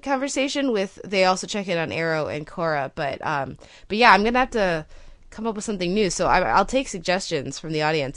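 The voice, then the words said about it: Congested, sick-sounding voice. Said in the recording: “the fates have smote me with a beast of a cold, which I'm sure the listeners can hear in my voice”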